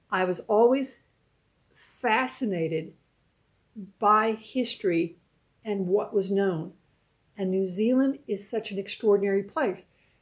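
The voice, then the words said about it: American accent. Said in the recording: “You know it's an American accent”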